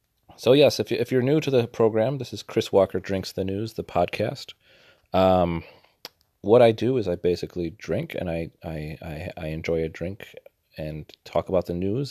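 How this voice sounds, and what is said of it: Congested, slightly sniffly voice. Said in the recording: “I'm battling a little bit of a cold. So, if you hear me sniffle a little bit ... my voice sounds a little bit different than usual”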